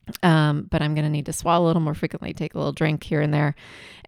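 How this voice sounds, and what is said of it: Congested, less clear voice. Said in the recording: “my voice sounds a little different than normal, it is because I have a lot of congestion going on ... normally I have a little clearer sounding voice”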